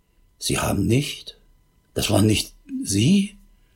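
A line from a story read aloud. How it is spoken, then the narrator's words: Distraught barely audible stammer. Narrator (German): völlig aus der Fassung und stammelte kaum hörbar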